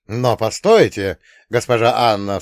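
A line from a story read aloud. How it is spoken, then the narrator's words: Exclaiming. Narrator (Russian): всплеснув руками, воскликнул Энгельс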